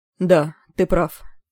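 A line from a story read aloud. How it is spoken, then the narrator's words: Crestfallen voice. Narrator (Russian): сказал упавшим голосом Левелис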